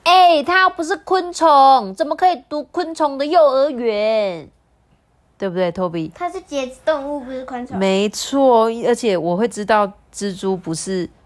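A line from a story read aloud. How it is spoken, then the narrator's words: Loud child. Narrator (Chinese): 小朋友很大声的说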